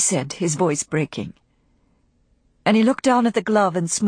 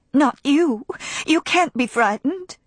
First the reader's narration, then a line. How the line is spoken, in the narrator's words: she cried